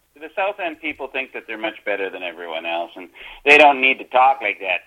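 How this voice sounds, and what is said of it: Northern Wisconsin regional accent. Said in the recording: “I hear the accent. I never heard that accent in Wisconsin”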